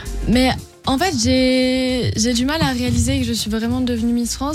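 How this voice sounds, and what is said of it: Slight southern French accent. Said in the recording (French): “qui a quand même un petit accent du Sud”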